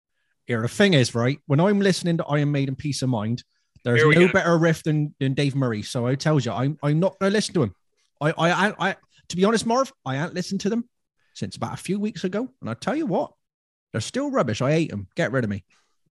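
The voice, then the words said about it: Imitates another person's voice. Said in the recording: “Do you want me to impersonate you?”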